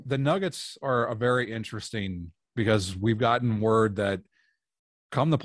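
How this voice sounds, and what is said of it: Usual voice. Nothing is said of it.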